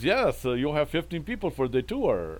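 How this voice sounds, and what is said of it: Put-on French accent. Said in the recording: “it's the best accent, French accent I can do”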